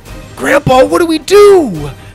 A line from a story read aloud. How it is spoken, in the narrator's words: Sawyer cried